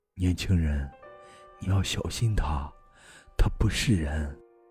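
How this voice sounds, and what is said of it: Low, hushed whisper. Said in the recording (Chinese): “压低声音 ... 小声地对我说”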